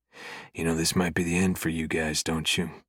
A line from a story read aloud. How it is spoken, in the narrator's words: He says quietly